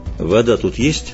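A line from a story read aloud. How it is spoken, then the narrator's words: Calm question. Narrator (Russian): спокойно спросил Геральт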